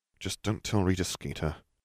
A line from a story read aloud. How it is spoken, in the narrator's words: Harry murmured